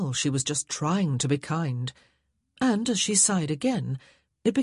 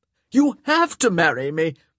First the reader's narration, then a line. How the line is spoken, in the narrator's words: Nigel cried out